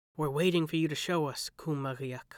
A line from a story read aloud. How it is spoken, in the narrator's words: he whispered